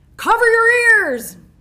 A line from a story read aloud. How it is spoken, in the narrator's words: Jim yelled again